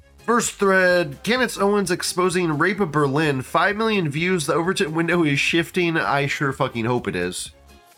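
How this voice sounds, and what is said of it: Nasal, congested voice. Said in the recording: “my voice is a bit nasally. It probably doesn't sound that bad, actually ... I sound a little different ... I'm sick as fuck right now ... I sound funny ... my nasaliness”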